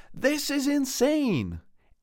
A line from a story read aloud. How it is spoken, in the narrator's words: Angela exclaimed a bit too loudly